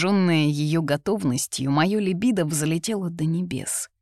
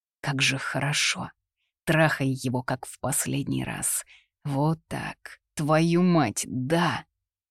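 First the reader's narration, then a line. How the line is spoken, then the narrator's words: Growling with pleasure. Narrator (Russian): Я рычал, забыв про все на свете от наслаждения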